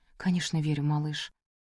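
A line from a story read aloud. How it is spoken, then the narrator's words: Soft, quiet. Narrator (Russian): тихо сказала она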